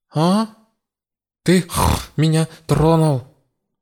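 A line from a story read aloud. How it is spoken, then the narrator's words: Deafening roar. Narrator (Russian): Бонагиос оглушительно зарычал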